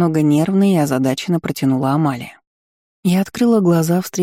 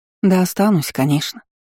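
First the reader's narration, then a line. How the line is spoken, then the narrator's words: Woman sighing. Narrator (Russian): вздохнула амазонка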